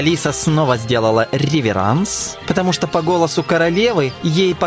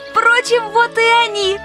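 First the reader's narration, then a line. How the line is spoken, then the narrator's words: Joyful shout. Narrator (Russian): радостно закричала она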